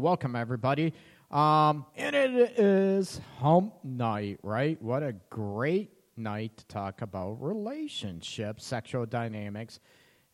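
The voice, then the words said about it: Strained, congested voice. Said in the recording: “My voice is gone. I got a little, a big sinus thing going on.”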